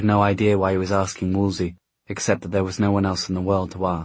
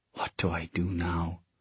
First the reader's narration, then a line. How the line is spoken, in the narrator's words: he whispered